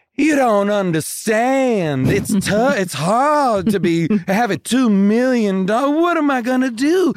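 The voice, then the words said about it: Put-on Southern accent. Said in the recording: “Southern accent. ... Guy, the richy rich Southern guy who's like”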